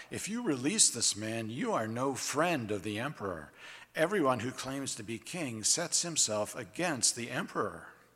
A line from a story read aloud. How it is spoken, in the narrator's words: the Jews cried out